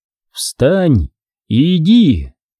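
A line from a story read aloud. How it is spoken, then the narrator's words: Loud voice. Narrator (Russian): священник громким голосом произнес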